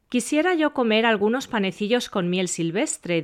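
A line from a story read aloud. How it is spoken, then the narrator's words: Plain. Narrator (Spanish): dijo un día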